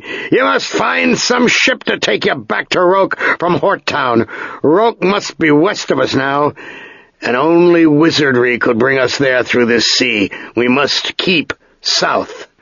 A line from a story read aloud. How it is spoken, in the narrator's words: the master bellowed through the wind and rain